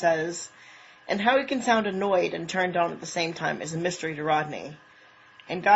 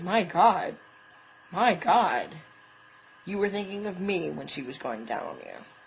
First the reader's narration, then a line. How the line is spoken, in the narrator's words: he says, his tone flat despite the way his heart is pounding in his throat